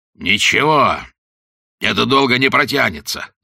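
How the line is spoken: Angry growl. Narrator (Russian): зарычал полковник, которому, наконец, вернулся дар речи

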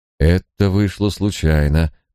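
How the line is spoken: Soothing, as to a child. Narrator (Russian): проговорил Николас успокаивающим тоном, словно обращаясь к малому ребенку

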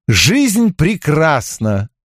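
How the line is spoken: Joyful. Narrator (Russian): радостно сказал я

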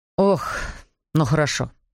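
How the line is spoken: Sighing. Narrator (Russian): сказал Эндрю и вздохнул

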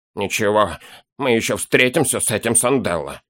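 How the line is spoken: Grumbling, less resolute. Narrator (Russian): проворчал гном, но было видно, что после рассказа нового знакомого решительности в нем поубавилось

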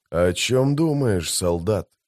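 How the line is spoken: Quiet question. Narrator (Russian): тихо спросил Маппо-коротышка

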